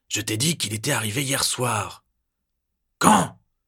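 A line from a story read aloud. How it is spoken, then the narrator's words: Roaring. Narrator (French): rugit l'autre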